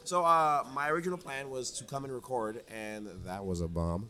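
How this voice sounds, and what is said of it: Strained, worn-out voice. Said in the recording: “they're screaming, which is why my voice is kind of gone”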